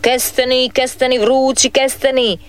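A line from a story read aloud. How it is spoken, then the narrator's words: Vendor calling out. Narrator (Croatian): viče kestenjar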